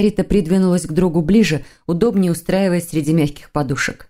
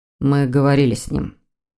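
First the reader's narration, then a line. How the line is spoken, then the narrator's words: Dull, muffled reply. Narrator (Russian): глухо отозвался Сазонов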